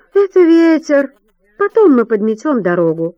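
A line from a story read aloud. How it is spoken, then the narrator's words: Cheerful voice. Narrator (Russian): бодрым голосом заключает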